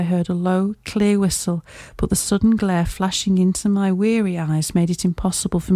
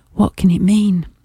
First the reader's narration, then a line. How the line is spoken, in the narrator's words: I gasped